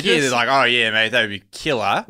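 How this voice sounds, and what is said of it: Put-on Australian accent. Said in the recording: “Wait, you were talking to them in an Australian accent?”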